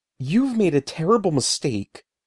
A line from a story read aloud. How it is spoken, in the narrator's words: told, my voice trembling with anger, with fear